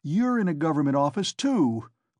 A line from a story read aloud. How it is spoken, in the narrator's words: cried Raskolnikov